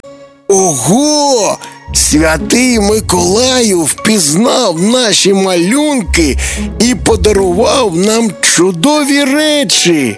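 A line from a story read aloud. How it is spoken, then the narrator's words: Joyful. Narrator (Ukrainian): радісно сказав Тимко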